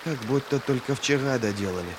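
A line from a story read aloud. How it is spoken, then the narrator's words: Muttered. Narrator (Russian): пробормотал Ки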